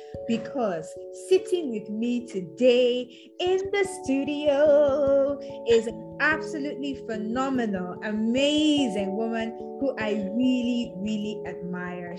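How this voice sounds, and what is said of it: Excited, enthusiastic voice. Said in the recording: “I am super excited, as you can obviously tell from my voice”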